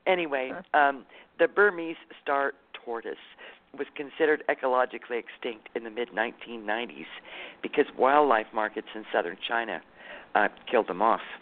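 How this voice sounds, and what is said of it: Congested, deep gruff voice. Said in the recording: “I have a little sinus problem tonight. I know I sound like a bear.”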